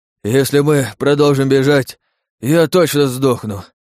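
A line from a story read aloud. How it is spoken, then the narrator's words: Wheezing creature. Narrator (Russian): хрипя произнёс свинорыл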